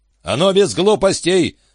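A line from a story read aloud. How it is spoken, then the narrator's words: Headmaster yelling. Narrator (Russian): заорал Джон Эндерс, директор средней школы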